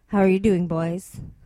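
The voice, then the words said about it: Put-on sexy seductive voice. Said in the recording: “a sexy voice.”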